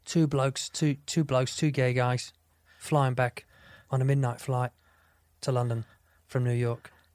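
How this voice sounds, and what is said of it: Bad put-on British accent. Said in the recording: “British guy ... I love doing it in his accent because it's bad”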